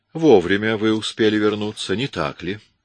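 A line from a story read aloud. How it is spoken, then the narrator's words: Plain. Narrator (Russian): спросила она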